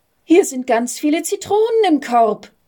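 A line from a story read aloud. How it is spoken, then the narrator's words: Girl calling out. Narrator (German): rief ein Mädchen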